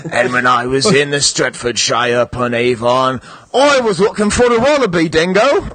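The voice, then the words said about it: Put-on Australian accent. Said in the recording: “trying to do a sort of Paul Bateman-ish accent, but then it devolved into Australian”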